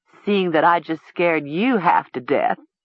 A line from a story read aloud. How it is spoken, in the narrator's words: Chandel said, chuckling